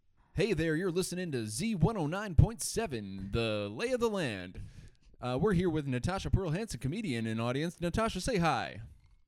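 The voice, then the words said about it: Ideal radio announcer voice. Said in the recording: “do your radio voice, your ideal radio voice? ... My ideal radio voice?”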